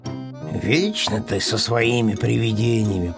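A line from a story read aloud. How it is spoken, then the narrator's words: Grumbling. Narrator (Russian): проворчал Пэтсон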